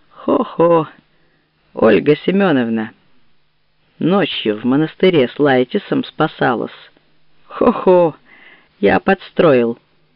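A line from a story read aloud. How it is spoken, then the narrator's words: Booming hearty laughter. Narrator (Russian): захохотал Сергей Сергеевич богатырски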